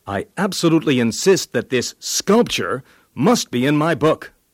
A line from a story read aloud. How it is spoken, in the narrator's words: Picasso said very sharply